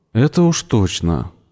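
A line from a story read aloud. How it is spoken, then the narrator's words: Sighing. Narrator (Russian): вздохнул Виктор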